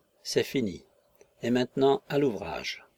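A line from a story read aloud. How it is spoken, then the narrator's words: Muffled murmur. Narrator (French): il murmura sourdement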